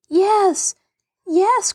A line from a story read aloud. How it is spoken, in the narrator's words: cried Mary